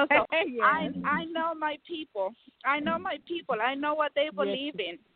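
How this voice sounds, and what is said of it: Speaks with a noticeable accent. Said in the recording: “you guys can hear my accent”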